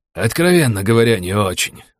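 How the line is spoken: Sighing. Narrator (Russian): вздохнул он

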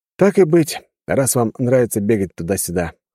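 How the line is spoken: Hmphing. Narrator (Russian): хмыкнул я

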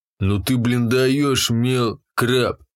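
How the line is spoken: Drawling. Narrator (Russian): протянул модник

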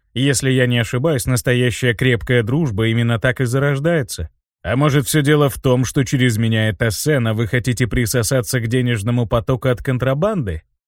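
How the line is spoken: Cold. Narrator (Russian): холодно произнес Винсан

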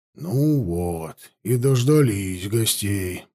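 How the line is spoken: Grumbling. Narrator (Russian): проворчал Афанасьев

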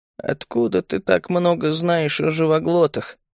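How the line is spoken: Hoarse, surprised. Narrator (Russian): в хрипе Мири слышалось удивление

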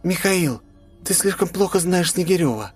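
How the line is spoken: Uncertain. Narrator (Russian): неуверенно проговорила она

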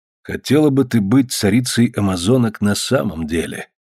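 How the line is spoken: Low-voiced question. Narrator (Russian): вполголоса спросил Александр

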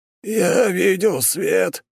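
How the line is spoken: Lost, hoarse rasp. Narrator (Russian): потерянно прохрипел он

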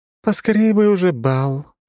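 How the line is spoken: Lazy drawl. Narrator (Russian): лениво протянула одна из дочерей императора

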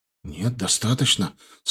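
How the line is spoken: Frightened. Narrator (Russian): сказал, испуганно глянув на меня, Румянцев

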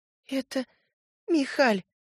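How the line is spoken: Sobbing. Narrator (Russian): всхлипывая

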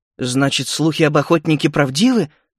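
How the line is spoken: Exclaiming after hesitation. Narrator (Russian): После некоторого замешательства воскликнул предводитель полуросликов

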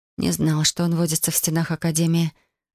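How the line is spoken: Thoughtful muttering. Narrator (Russian): задумчиво пробормотала я

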